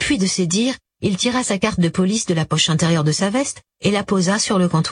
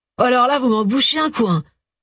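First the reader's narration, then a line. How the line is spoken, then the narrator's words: Bar owner exclaiming. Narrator (French): s'exclama le patron du bar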